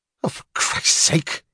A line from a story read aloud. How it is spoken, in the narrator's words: he snapped